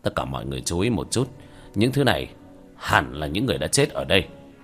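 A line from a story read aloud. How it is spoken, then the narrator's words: Quiet voice. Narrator (Vietnamese): Hứa Trinh Dương nhỏ giọng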